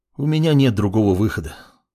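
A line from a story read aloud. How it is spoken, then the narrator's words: Calm young man. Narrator (Russian): спокойно произнес парень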